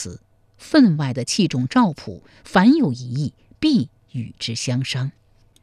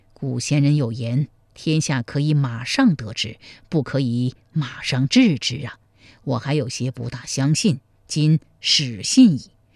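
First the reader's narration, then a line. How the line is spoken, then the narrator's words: Sighing. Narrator (Chinese): 赵匡胤叹道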